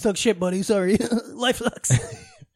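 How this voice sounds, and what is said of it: Imitates another person's voice. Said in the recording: “That's my impression of your dad. ... Scottish”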